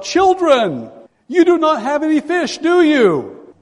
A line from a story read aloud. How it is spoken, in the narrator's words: a stranger there, and he yells out